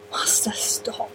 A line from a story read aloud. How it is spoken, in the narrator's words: the Doctor breathed